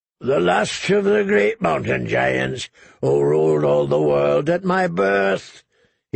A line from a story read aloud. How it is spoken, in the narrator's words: he bellowed back through the snow